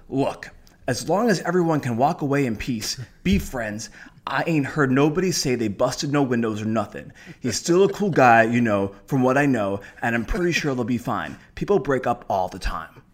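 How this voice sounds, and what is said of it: Imitates another person's voice. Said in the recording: “great impression. I believed I was talking to Steve Harvey.”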